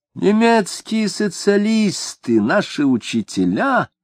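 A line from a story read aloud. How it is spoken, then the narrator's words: Cooing. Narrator (Russian): ворковал Шемякин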